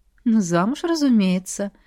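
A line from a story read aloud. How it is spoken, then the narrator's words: Purring. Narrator (Russian): мурлыкнула я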